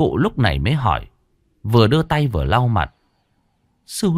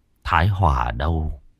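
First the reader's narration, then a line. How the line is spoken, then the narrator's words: Muttered. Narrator (Vietnamese): Thái Hưng lẩm bẩm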